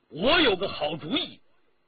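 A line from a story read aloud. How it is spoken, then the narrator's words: Loud. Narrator (Chinese): 一个人站出来，大声地说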